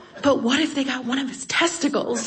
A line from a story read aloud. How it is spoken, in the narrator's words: And then she leans in and whispers